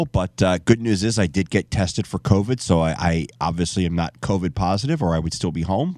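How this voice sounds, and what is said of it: Nasal, congested voice. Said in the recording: “You could probably still hear it in my voice, more nasally than usual ... just a little head cold”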